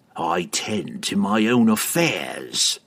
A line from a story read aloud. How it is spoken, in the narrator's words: he growled at Pook